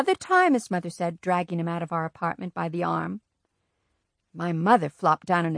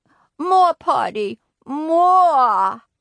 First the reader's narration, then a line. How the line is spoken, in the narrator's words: He cried